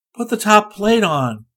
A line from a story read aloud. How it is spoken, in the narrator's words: Rick begged